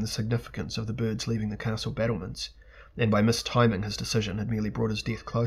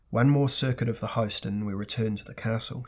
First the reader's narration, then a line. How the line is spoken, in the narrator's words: she said